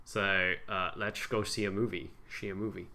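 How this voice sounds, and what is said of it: Put-on Dutch accent, S as sh. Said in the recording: “Dutch accent ... pretty much the same accent as now, but instead of saying S, I do sh ... That's pretty good.”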